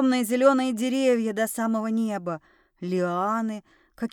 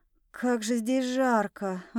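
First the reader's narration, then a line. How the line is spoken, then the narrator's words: Sighing. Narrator (Russian): вздохнула я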